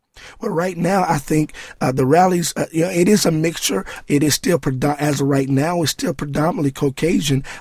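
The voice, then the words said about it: Hoarse voice. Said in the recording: “my voice is hoarse right now”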